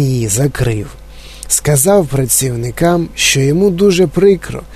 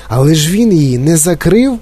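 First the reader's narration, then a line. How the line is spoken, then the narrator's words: Exclaimed. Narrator (Ukrainian): вигукнув Чарлі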